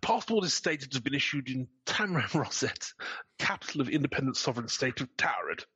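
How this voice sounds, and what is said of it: Deliberately terrible put-on accent. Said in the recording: “this terrible accent”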